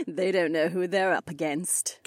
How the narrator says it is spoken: Kat chuckled

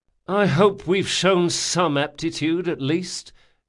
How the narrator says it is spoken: groaned Locke

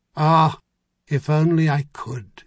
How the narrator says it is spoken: he sighed

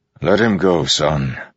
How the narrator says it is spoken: Dalinar said, sighing

